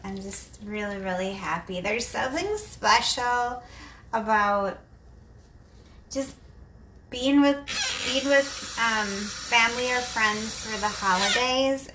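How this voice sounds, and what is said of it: Excited, happy voice. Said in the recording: “I'm so excited. I don't know if you can hear it in my voice.”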